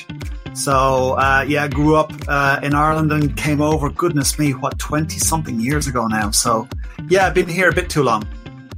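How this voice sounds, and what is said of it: Irish accent. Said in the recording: “your accent is not a London accent ... I'm Irish”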